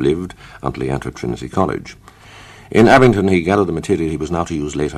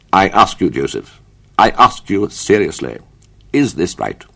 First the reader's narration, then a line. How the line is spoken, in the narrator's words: His father said in his severest tones